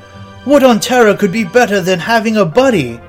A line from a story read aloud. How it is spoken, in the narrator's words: shout once more